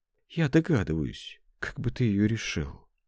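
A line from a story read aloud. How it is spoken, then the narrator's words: Quiet. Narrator (Russian): тихо сказал Сеня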